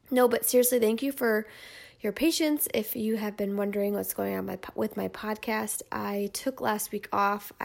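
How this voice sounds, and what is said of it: Nasal, congested voice. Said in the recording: “as you can probably hear in my voice and in my terrible nasaliness, I have a cold”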